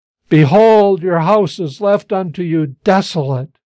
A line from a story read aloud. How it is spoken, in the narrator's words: I heard him exclaim with mournful pathos